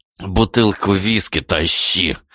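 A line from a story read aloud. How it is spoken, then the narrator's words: Hissed. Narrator (Russian): прошипел Дамир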